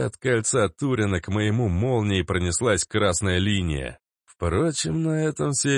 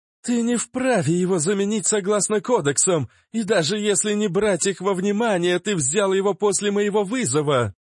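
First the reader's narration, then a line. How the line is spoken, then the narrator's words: Loud, slightly hysterical. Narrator (Russian): Громко, чуть истерично заявила Лидия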